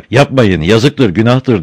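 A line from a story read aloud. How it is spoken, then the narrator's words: Started shouting. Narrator (Turkish): diye bağırmaya başladı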